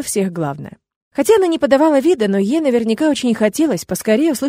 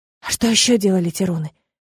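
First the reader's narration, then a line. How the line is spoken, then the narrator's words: Whispered question. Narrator (Russian): шепотом спросила я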